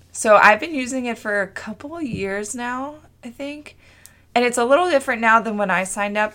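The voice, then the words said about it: Hoarse, fading voice. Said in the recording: “I'm like totally losing my voice.”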